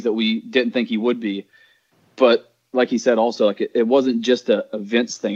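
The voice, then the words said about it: Southern American accent. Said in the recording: “with a Southern accent ... if you have this accent”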